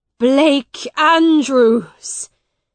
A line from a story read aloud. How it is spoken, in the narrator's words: shouted Miles